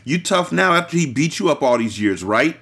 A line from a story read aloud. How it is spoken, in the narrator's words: She said harshly